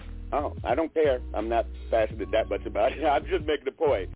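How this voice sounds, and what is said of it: Hoarse, strained voice, speaking loudly. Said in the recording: “I'm losing my voice, so I have to yell a little bit.”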